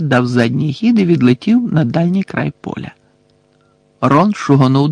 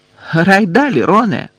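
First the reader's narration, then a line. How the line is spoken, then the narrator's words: Casual shout. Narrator (Ukrainian): крикнула Анджеліна, ніби нічого не сталося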